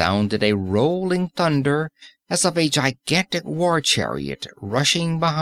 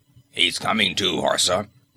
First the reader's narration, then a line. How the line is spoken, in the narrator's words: grunted a voice